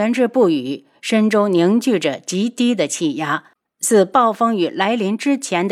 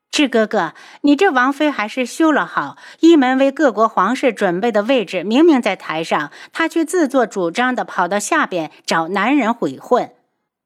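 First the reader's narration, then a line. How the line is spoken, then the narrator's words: Smiling. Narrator (Chinese): 素如意嘴角含笑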